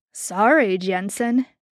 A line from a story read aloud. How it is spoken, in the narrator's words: JD said